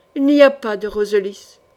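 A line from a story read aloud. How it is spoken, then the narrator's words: Gloomy, flat tone. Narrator (French): dit Laurence d'un ton morne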